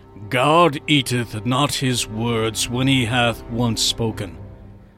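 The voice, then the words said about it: Dramatic, theatrical reading voice. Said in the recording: “I had to use my dramatic voice there, especially with the word eateth”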